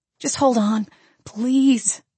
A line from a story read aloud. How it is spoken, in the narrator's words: I begged him